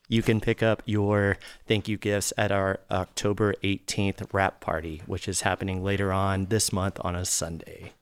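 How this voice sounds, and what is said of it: Polished radio announcer voice. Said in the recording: “stellar radio voice”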